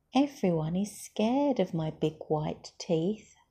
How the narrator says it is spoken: wailed Smiley Shark

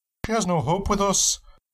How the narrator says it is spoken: the woman pleaded again

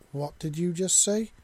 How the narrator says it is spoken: Shena stammered

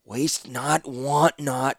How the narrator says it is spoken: Zancha muttered

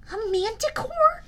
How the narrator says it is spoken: Nico gasped

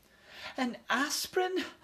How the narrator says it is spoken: Ralph's mother gasped

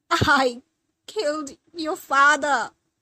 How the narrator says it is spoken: stammered Mom in fits of sobs

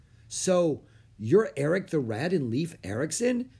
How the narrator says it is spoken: Annie asked excitedly

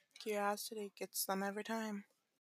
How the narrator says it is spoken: he mumbled to himself

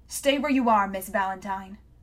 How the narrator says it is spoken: a sharp voice barked

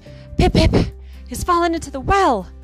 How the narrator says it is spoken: he gasped

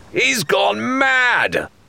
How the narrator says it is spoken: Rathbone yelled

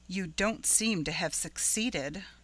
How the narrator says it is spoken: remarked Caroline dryly

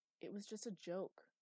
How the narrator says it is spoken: said

